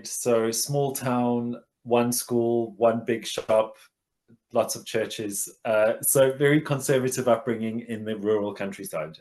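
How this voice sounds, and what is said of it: South African accent. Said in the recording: “you might be South African ... the accent gives it away”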